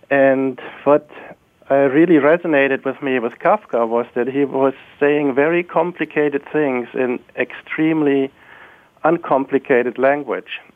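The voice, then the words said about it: German accent. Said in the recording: “You may have guessed from my accent that I grew up in Germany”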